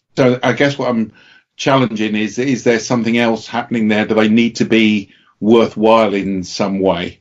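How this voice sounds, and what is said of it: British accent. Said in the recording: “Naivete expressed in a British accent is still charming. ... It sounds very smart.”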